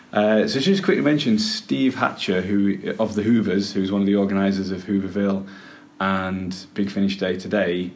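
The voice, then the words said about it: Cumbrian accent. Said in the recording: “my accent's gradually deteriorated and become more Cumbrian”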